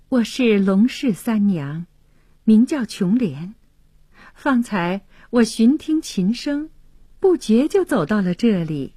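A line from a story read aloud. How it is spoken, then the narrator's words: Shy smile. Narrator (Chinese): 琼莲羞涩的一笑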